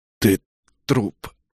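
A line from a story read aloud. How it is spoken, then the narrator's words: Strained, forced out. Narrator (Russian): выдавил я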